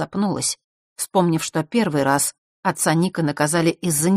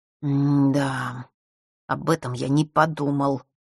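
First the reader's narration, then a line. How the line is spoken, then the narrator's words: Annoyed boy muttering. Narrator (Russian): с досадой пробормотал мальчик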